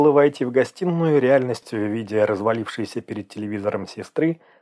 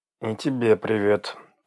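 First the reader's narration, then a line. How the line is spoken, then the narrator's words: Through gritted teeth. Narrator (Russian): процедил сквозь зубы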